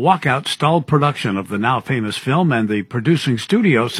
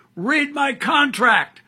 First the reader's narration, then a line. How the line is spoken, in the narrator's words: over his shoulder yelled out